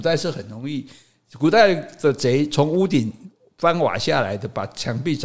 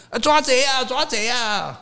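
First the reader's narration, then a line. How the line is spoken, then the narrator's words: Shouting. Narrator (Chinese): 后面有人喊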